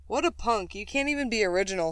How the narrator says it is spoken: said another one

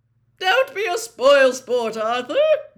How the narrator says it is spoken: boomed Ludo Bagman, rattling his pockets excitedly

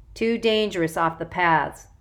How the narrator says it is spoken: she said

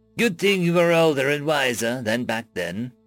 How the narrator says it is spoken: Sloth said with a chuckle

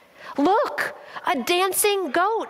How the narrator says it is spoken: my brother exclaimed

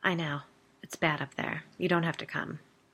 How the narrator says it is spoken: Biddy said quietly

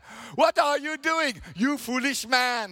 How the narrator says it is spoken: the villagers cried

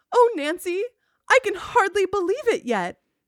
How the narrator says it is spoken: Allison declared happily

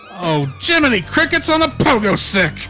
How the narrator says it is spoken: blurted Drew

